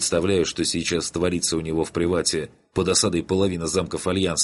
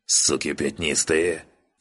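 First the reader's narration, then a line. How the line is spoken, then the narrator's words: Hateful rasp. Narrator (Russian): с ненавистью прохрипел генерал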